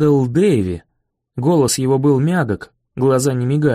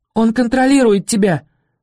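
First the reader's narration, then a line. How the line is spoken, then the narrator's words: Cried out. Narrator (Russian): вскрикнула Виола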